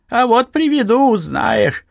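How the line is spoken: Old man laughing. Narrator (Russian): засмеялся дед Фишка

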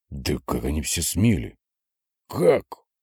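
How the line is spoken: Hiss. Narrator (Russian): шипел он

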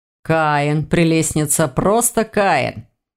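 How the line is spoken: Purring. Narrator (Russian): мурлыкнул котяра

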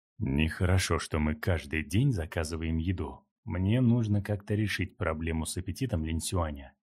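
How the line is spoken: Muttered. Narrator (Russian): пробормотал Линхуан

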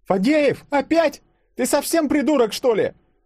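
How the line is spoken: Shrieking yell. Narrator (Russian): завопила ежик

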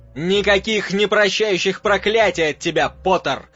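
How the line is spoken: Shouting over loud noise. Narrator (Russian): кричал он, стараясь перекричать вопли Хагрида и дикое визжание клыка

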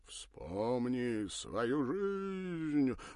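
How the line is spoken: Mournful theatrical drawl. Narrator (Russian): затянул заунывно театральным голосом, войдя в роль то ли мага, то ли гипнотизера-самоучки

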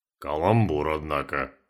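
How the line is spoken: Snort. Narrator (Russian): хмыкнул Валера

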